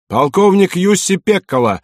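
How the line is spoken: Sudden shout from door. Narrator (Russian): вдруг крикнули от дверей

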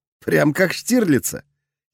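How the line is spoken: Giggling. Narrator (Russian): хихикнул Тёма

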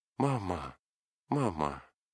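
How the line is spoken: Said as at first meeting. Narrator (Russian): сказал, как в первую минуту их встречи

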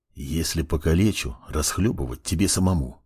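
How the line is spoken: Whisper. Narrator (Russian): продолжал шептать он

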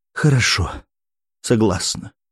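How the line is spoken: Heavy, resigned sigh. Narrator (Russian): тяжело вздохнула Анастасия

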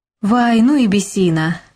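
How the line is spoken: Laughing. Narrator (Russian): засмеялась Рита

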